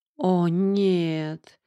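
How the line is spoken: Groan. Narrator (Russian): простонала я

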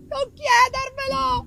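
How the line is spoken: Terrified shout. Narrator (Italian): gridai io, perché mi parve di vedere lo spaventoso spettro vagare per la stanza

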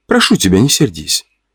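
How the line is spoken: Sighing, quiet. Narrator (Russian): Она вздохнула, тихо произнесла

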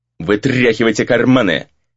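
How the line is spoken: Sharp command. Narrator (Russian): резко велел второй

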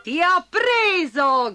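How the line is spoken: Shouted. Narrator (Italian): gridò Bastoncello

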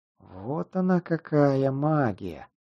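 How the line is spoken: Whisper. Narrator (Russian): прошептал

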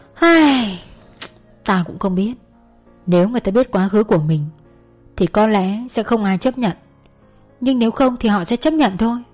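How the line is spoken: Sighing soft reply. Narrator (Vietnamese): Trâm thở dài rồi khẽ đáp

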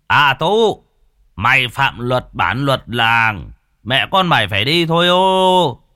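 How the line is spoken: Loud call through cupped hands. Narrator (Vietnamese): Ông Sùng trưởng bản bắt tay làm loa lớn tiếng gọi

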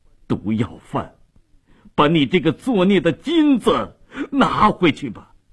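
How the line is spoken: Crying out in grief. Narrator (Chinese): 米勒哭喊着说道

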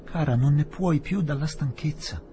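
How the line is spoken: Mildly surprised exclamation. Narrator (Italian): esclamò Ronnie, non troppo sorpreso

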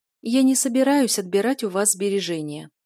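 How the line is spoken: Tired explanation. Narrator (Russian): устало объяснила Юля еще раз

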